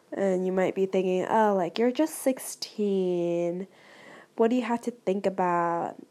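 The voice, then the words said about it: Sick-sounding voice. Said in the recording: “as you can hear from my voice, yes, I am a bit sick”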